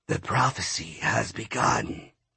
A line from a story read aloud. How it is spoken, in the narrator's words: it said in a woman's raspy voice